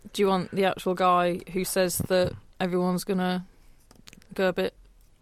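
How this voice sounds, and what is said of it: Northern English accent. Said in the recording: “speaking in a weird northern accent”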